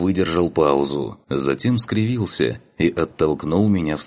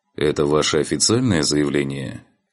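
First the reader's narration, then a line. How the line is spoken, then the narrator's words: Dry clarification. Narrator (Russian): Сухо уточнил посредник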